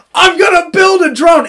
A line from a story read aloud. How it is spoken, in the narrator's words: yelling across